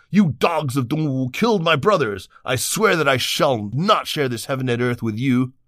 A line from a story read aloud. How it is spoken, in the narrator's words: Liu Bei shouted back